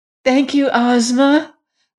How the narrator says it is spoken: cried Dorothy

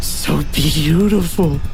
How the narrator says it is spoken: he moaned

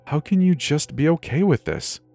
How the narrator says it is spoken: I sigh

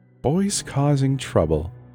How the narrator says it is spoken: she said in a firm yet soothing voice

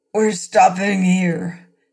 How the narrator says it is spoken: said hoarsely

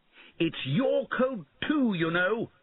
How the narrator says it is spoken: he shouted

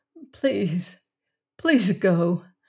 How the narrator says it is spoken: the woman pleaded

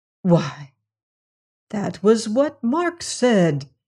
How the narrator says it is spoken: he cried

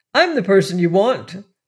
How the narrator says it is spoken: they all exclaimed at once

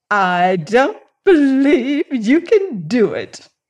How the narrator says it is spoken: laughed Mary provocatively from the conservatory

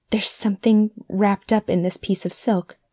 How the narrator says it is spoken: faltered Mrs

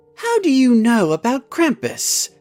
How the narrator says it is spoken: Kathy asked Cherry in a surprised voice

